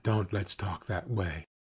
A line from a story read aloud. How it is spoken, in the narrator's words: he whispered